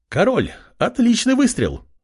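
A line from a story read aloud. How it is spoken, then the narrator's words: Young woman warrior exclaiming. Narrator (Russian): воскликнула Тифа, девушка-воительница, увидев появление Артема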